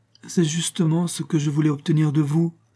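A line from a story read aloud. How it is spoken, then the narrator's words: Pleading voice. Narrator (French): reprit Evelyne avec une supplication dans la voix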